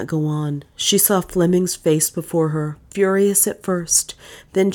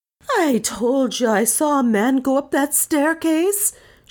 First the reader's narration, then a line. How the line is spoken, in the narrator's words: she wailed